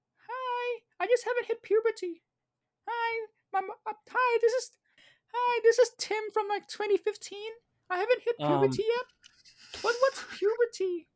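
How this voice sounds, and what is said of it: Very high-pitched voice. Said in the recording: “I have a very high voice. I can go very high.”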